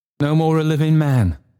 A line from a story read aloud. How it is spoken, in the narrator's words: cried Trotty